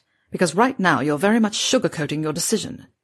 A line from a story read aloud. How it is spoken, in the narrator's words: he snapped